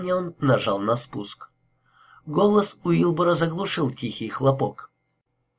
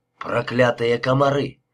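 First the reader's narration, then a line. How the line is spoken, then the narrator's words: Grumbling. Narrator (Russian): проворчал он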